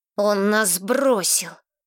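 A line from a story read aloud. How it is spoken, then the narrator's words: Angry hiss. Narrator (Russian): зло прошипел Ривергейл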